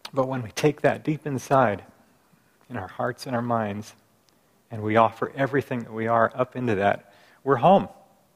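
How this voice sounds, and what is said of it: Choked-up, emotional voice. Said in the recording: “getting choked up a little here.”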